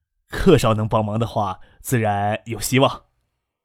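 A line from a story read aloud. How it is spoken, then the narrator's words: Tearful smiling speech. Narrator (Chinese): 靳飞鸿潸然的笑了笑，说道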